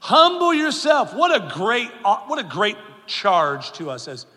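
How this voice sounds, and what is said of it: Usual voice. Nothing is said of it.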